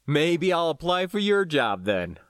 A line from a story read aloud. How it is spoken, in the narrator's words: I laughed